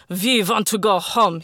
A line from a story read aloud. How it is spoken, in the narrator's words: he bellowed